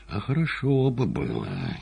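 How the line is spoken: Barely audible, through teeth. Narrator (Russian): чуть слышно сквозь зубы сказал Римский

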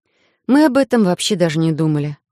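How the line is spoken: Sighing. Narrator (Russian): вздохнула я

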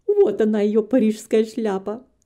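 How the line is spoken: Loud laughing. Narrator (Russian): хохотала Белла

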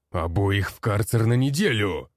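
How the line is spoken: Barking. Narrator (Russian): рявкнул он

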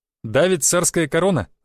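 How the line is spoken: Laughing. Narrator (Russian): засмеялся я

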